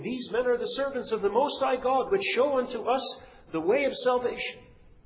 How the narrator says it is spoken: cried out, saying

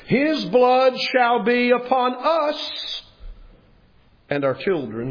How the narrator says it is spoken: cried out and said

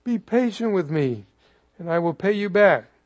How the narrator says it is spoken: begged him

